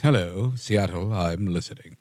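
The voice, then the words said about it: Frasier Crane character voice. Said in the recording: “In my Frasier voice.”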